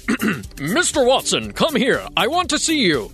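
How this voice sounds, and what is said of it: Old-fashioned 1870s man's voice. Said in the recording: “my impression of a man from the 1870s”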